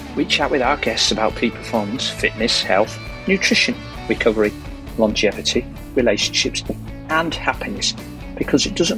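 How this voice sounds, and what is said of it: Yorkshire English accent. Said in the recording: “you'll always hear a Yorkshire accent”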